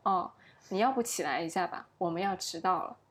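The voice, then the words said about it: Extremely calm, unbothered voice. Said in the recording (Chinese): “他用一种极其淡定的声音说”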